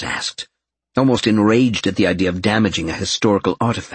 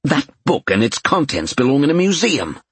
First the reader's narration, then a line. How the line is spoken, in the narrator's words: Jonas snapped